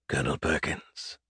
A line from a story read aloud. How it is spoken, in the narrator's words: the harsh voice of a lizard hissed